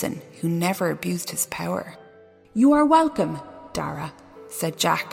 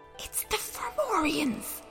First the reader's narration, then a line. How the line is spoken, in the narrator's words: Jack whispered